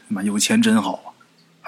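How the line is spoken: Wistful sigh. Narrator (Chinese): 孙广平这时候也感叹

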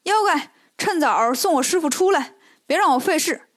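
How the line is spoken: Shouting. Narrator (Chinese): 孙悟空就喊

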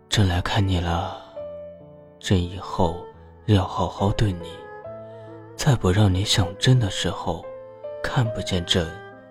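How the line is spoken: Low murmur in ear. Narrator (Chinese): 低声在殷小谷耳边呢喃

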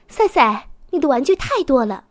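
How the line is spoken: Exasperated mother shouting. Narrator (Chinese): 赛赛的妈妈忍无可忍了，她一边上楼一边喊

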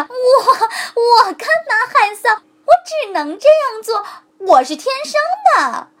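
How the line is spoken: Hearty laughter. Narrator (Chinese): 狐狸哈哈大笑

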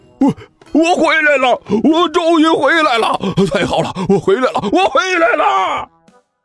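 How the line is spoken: Loud shouting while running. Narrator (Chinese): 一边跑一边大声喊道

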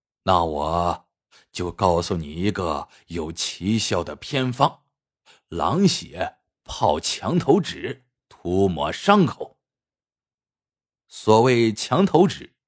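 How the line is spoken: Faintly amused old man. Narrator (Chinese): 老冯头脸上露出了若有似无的笑意，说道

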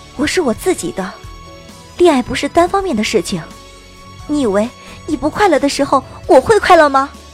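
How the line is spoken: Fierce, breathless. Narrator (Chinese): 我喘着粗气，狠狠道

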